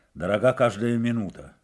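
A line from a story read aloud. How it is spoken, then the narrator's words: Stern. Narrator (Russian): строго произнес Федор Ксенофонович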